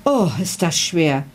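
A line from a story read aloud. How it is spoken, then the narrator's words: Girl groaning. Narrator (German): stöhnte das Mädchen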